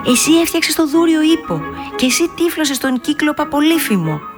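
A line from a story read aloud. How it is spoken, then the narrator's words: Excited shout. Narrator (Greek): φώναξε ενθουσιασμένη η Δανάη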